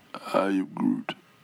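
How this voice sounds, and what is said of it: Vin Diesel impression as Groot. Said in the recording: “Are you doing your Stallone impression or your Vin Diesel impression?”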